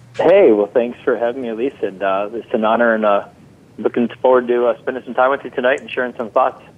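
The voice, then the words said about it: Midwestern American accent. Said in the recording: “I love that Midwestern accent of yours”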